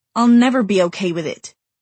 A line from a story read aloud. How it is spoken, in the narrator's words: Clary snapped